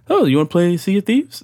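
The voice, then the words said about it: Imitates another person's voice. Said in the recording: “That's not how Tim sounds, guys ... is that a Tim impression? That's how it sounds to me.”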